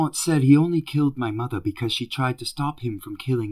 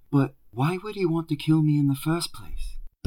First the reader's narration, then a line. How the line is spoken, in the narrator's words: Dumbledore sighed, very deeply this time